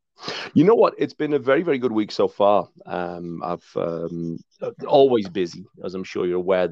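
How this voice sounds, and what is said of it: Southern US accent. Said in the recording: “by way of Alabama ... As you noticed by the accent, Tom, I ain't from around these here parts”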